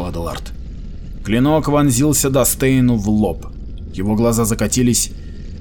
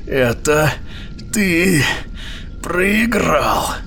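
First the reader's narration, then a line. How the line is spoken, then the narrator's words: Hissed. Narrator (Russian): прошипел Дил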